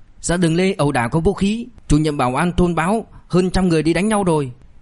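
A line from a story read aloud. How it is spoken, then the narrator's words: Loud urgent call. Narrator (Vietnamese): Người từ phòng trực chạy ra lớn tiếng hô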